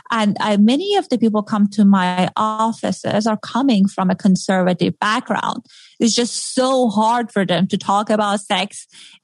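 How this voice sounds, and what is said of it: Middle Eastern accent. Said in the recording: “from my accent that I have a Middle Eastern background”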